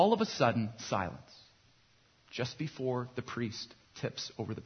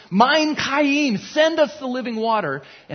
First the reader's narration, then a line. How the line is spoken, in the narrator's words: The people are all shouting